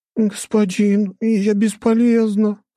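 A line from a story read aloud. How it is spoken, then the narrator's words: Whimpering. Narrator (Russian): хныкала Блэр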